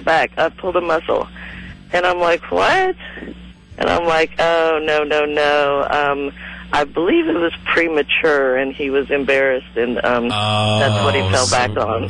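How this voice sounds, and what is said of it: Raspy, congested voice. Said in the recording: “How many years did you smoke? ... I've got a little bit of a cold. ... She's got a cold ... I'm a little upper respiratory problem.”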